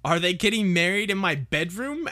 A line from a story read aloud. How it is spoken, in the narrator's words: asked Ron furiously